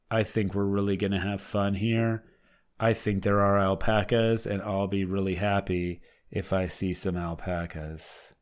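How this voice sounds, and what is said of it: Flat, extremely unenthusiastic voice. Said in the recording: “in an extremely unfun voice ... That's my Kelly.”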